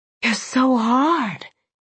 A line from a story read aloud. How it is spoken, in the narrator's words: I breathed